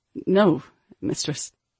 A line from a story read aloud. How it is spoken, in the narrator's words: he stuttered